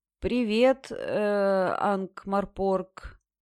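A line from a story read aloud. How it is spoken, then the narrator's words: Uncertain. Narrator (Russian): неуверенно произнес он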